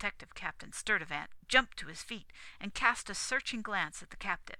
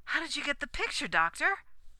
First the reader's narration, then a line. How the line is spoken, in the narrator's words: cried the cashier